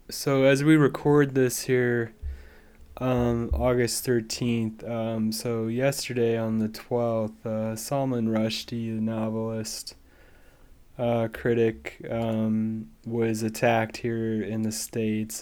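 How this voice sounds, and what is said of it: Weak, sick-sounding voice. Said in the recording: “apologize for my voice. I'm under the weather, so I don't really have a voice this week”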